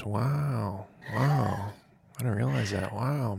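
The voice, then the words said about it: Sighing imitation of another person's voice. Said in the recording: “doing my own Wilson voice ... That's my Dave Wow voice ... It's like a sigh.”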